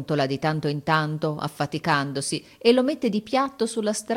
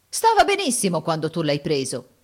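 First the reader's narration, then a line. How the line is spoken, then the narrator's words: Indignant exclamation. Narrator (Italian): esclama indignato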